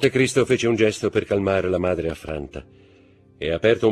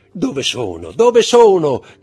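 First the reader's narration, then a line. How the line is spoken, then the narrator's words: Shouted. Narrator (Italian): gridò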